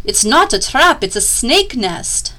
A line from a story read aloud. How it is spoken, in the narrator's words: But Tweedleknees screeched